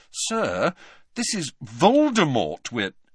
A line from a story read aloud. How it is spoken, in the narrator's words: said Harry, trying to keep his voice reasonable